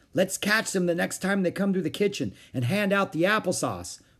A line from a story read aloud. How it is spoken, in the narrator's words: Beezus shouted back